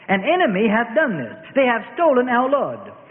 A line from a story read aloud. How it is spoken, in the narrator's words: Mary of Magdala shrieked